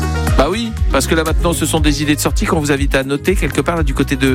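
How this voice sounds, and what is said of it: Usual voice. Nothing is said of it.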